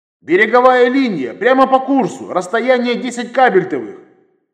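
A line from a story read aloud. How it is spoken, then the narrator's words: Nearly shouted over loudspeaker. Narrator (Russian): Практически прокричал я в микрофон громкой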